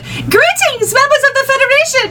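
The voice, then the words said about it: Alpha Centauri alien character voice. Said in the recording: “the Alpha Centauri voice ... with no filter”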